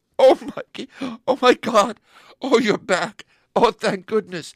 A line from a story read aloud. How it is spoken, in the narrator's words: she started crying and sobbed